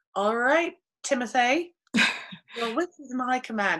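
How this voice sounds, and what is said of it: Put-on British accent. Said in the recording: “as long as you used a British accent”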